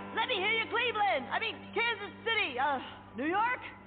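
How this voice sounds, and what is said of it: Rock frontman shouting to crowd. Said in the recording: “my impression of a geographically challenged rock band delivering a commencement speech”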